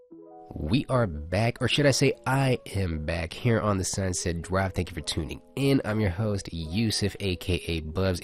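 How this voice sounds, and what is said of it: Slightly raspy voice. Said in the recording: “my voice is getting a little bit raspy.”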